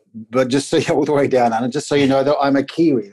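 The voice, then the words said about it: New Zealand accent. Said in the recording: “This is a Kiwi accent.”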